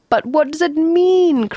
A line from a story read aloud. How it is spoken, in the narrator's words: cried Arthur